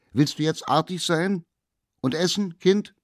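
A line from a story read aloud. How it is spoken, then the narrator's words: Called through door. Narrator (German): Die Mutter aber, die hörte, dass das Kind still geworden war, rief durch die Tür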